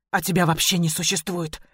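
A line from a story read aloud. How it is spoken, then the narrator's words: Hissed. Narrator (Russian): прошипела я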